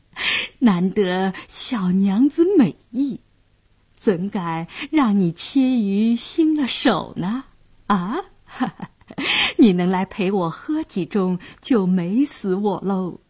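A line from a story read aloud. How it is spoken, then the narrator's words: Leering laugh. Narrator (Chinese): 杨衙内色眯眯地笑道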